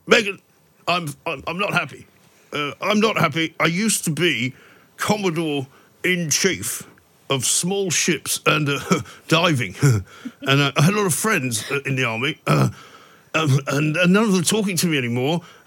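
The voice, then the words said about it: Impression of Prince Harry. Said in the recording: “also wins the impression of the week for his Harry and Meghan”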